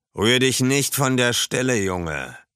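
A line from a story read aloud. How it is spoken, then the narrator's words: Loud official. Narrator (German): sagte ein Beamter laut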